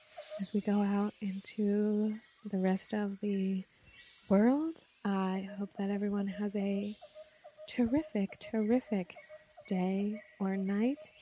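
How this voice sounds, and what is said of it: Radio announcer voice. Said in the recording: “going to do my radio voice.”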